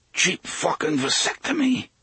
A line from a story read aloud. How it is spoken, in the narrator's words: he said hoarsely